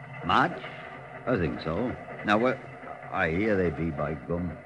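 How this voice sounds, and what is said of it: Yorkshire accent. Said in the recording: “The accent was Yorkshire.”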